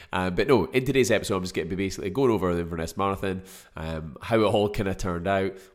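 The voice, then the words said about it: Congested, choked-up voice. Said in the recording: “picked up a bloody cold ... a bit choked up. Hence the reason probably my voice sounds a little bit weird”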